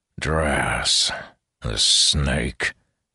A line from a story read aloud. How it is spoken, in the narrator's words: groaned